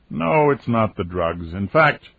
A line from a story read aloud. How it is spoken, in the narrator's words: chuckle, giggle